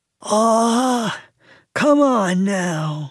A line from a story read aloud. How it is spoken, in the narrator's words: he moaned